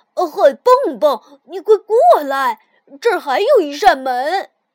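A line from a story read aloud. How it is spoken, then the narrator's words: Calling out. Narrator (Chinese): 跳跳喊了一声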